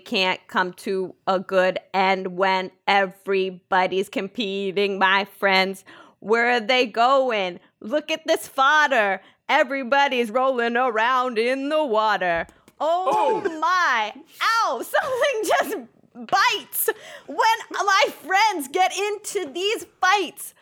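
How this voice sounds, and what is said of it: Sung in a put-on New York accent. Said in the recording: “why am I in this New York accent?”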